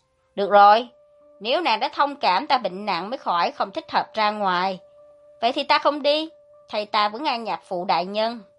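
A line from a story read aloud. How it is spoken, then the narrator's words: Loud. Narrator (Vietnamese): lớn tiếng nói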